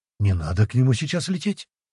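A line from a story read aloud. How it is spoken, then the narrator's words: Startled, frightened. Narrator (Russian): испуганно встрепенулся Шизму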